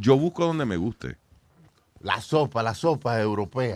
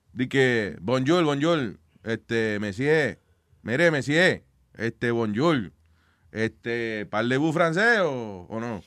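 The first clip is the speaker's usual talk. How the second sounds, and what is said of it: Bad put-on French accent. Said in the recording (Spanish): “es un mal acento francés ahí”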